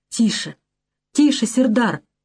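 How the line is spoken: Frightened old man whispering. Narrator (Russian): испуганно прошептал старый заклинатель

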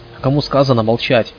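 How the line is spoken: Barked. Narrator (Russian): рявкнул фармер

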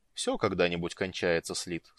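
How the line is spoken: Calm. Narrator (Russian): спокойно сказал Орин

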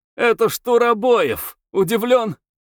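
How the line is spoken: Awkward loud laughing proclamation. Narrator (Russian): Дмитрий нелепо захохотал, возглашая

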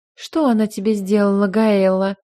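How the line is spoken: Melodious question. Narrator (Russian): спросила певучим голосом

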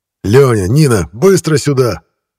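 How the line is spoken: Shout. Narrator (Russian): крикнул Денис

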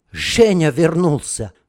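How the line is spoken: Breathless exhale. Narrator (Russian): выдохнула

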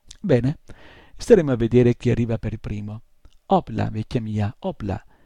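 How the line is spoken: Exclamation. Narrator (Italian): esclamò

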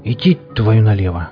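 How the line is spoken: Breathy exhale. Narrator (Russian): выдохнул кто-то

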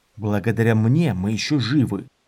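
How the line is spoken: Gruff mutter. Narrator (Russian): буркнул Дорин

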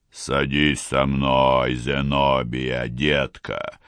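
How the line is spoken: Soft booming voice. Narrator (Russian): мягким голосом прогудел Брокльбанк

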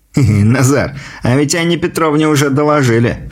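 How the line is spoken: Short chuckle. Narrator (Russian): хохотнул Прохор

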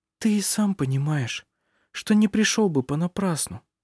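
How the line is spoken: Quiet reply. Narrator (Russian): ответила она тихо

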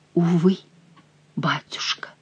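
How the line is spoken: Whisper. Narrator (Russian): прошептала Диана

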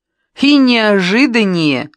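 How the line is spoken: Ringing laughter. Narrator (Russian): добавила Оля, звонко рассмеявшись

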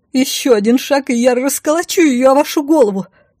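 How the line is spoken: Yelling. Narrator (Russian): заорала

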